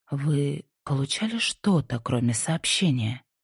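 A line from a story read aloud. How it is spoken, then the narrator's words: Quiet question. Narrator (Russian): Тихо спросила Инди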